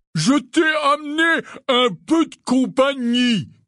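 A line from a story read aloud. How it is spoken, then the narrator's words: Shouting. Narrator (French): cria Hagrid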